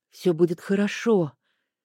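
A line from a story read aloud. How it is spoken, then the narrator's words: Hoarse whisper. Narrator (Russian): хрипло прошептала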